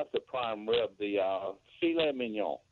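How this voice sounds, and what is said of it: Put-on French accent. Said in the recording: “I got it right in my French accent.”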